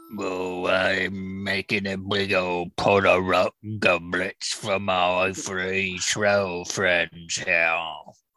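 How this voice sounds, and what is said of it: Troll character voice. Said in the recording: “You want to hear my troll voice?”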